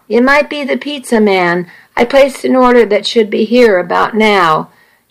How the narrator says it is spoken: Nikki called out

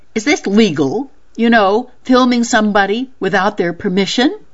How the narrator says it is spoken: She finally blurted

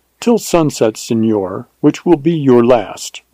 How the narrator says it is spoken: replied

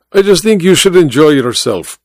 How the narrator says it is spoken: Baba said

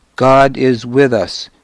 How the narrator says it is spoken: Sithric shouted

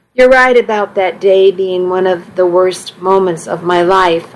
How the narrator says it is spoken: I said

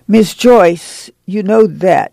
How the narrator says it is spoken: she said sternly

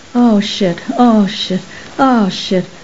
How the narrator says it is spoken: him moaning

